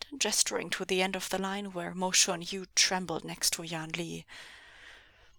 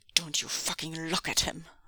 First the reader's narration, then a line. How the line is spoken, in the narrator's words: Ming Zhui growled